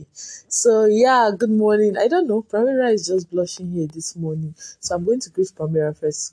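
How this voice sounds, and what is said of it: Strained voice, not sonorous. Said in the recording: “my voice is not fine. I know it's not sounding so sonorous.”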